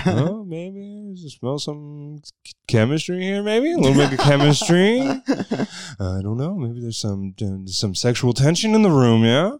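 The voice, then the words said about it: Jeff Goldblum impression. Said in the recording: “I always just do a Jeff Goldblum impression.”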